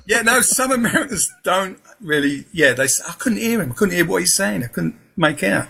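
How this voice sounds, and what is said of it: Southeast London accent. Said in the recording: “I was brought up in Peckham, London, southeast London. So that's my accent.”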